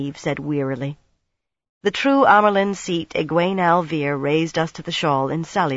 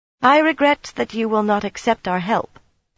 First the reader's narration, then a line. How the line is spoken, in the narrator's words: Mistress Corley said coldly